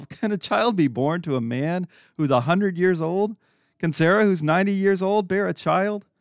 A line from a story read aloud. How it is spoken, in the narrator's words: Abraham laughed and said to himself